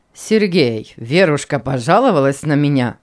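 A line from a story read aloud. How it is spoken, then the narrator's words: Laughing old man. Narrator (Russian): засмеялся старик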